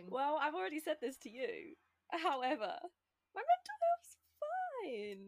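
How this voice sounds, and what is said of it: High, squeaky voice. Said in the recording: “She says with a really high, squeaky voice. You sound like Ross in that episode where he's totally not”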